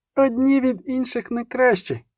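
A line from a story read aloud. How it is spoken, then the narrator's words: Exclaimed. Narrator (Ukrainian): вигукнула Мільва, несподівано вставши на захист молодого нільфгарця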